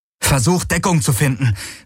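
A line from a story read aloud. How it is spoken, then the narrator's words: Calling out. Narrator (German): rief Garlen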